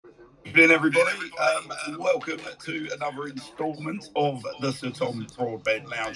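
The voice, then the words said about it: Tired, worn-out voice. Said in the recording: “You can probably tell from my voice I'm a little battle-hardened and battle-weary from last night”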